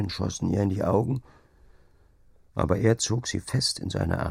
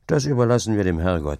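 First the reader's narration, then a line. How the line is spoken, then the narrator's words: Plain. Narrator (German): sagte er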